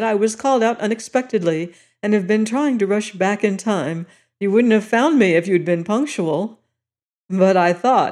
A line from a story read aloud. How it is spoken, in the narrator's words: he added, laughing